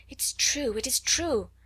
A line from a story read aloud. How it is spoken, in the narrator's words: she gasped